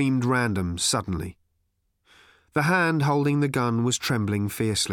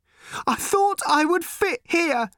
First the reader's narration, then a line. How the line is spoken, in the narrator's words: she cried